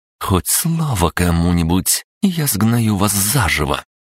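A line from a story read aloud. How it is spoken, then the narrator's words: Said through teeth. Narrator (Russian): процедила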